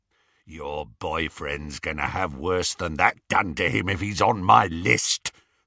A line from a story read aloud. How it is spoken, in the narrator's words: said the horribly familiar, rasping voice